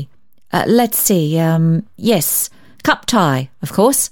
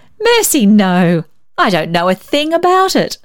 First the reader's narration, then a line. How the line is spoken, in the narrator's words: laughed